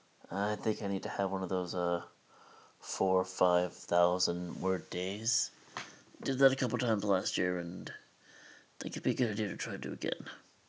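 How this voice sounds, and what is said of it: Tired, worn-out voice. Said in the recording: “You could definitely tell in my voice that I am pretty much out of it, pretty tired.”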